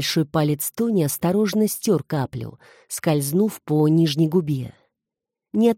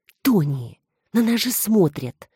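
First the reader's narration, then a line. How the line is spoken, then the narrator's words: Hissing. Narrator (Russian): зашипела она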